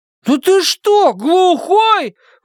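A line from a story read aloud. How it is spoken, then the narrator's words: Indignant shout. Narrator (Russian): возмущенно крикнул Том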